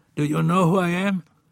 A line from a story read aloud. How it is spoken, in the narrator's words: Friedman in a raspy voice asked